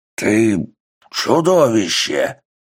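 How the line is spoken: Creature's growl. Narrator (Russian): прорычало существо

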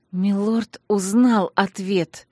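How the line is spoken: Speech through clenched teeth. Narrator (Russian): процедила сквозь крепко стиснутые зубы

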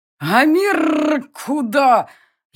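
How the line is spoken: Furious growl, almost human voice. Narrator (Russian): яростно прорычала оскаленная пасть почти человеческим голосом

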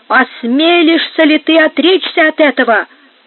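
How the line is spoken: Exclamation. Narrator (Russian): воскликнул Игнацио

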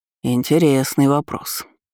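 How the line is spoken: Captain's mutter. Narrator (Russian): пробормотал капитан

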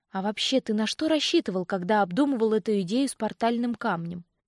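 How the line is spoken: Joyless grunt. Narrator (Russian): Он невесело хмыкнул

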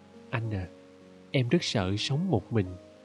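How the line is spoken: Young girl whispering. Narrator (Vietnamese): Thiếu nữ thì thầm

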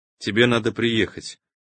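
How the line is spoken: Lifeless flat voice. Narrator (Russian): мертвым голосом сказала дочь

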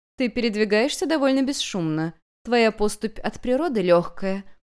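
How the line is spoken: Melodious questioning voice. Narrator (Russian): мелодичным голосом спросила госпожа Камелия

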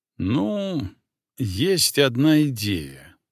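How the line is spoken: Slow. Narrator (Russian): медленно произнес я

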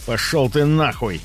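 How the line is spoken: Growled. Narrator (Russian): рыкнул

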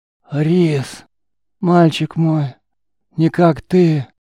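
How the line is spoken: Old man, trembling voice. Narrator (Russian): Дрожащим голосом старик

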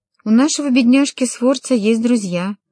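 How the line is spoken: Plain. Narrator (Russian): ответил Чезаро

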